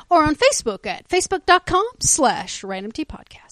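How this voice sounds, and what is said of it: Weird movie voiceover voice. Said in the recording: “She is genetically incapable from saying that not in the weird voice ... It's my movie voiceover ... Voice.”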